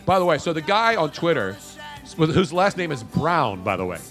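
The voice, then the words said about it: Thick New York accent. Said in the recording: “We all have thick New York accent.”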